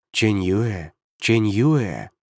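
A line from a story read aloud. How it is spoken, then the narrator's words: Tender repetition. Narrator (Russian): ласково повторял У Цяньхэн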